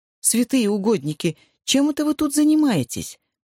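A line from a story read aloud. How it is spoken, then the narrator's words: Exclaiming. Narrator (Russian): воскликнула ирландка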